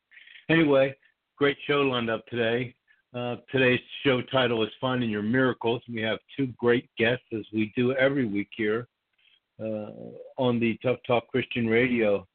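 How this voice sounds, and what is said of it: Strained, hoarse voice. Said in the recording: “I'm losing my voice a little bit here this morning”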